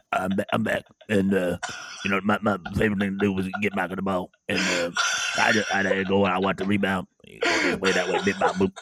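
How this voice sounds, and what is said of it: Imitates another person's voice. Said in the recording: “Is that your Dennis Rodman impression ... That's really good”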